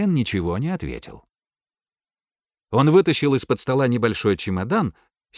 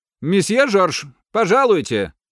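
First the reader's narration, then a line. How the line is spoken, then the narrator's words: Shouted behind a door. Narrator (Russian): крикнул кто-то за дверью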